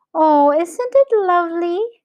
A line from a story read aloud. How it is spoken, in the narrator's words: cried William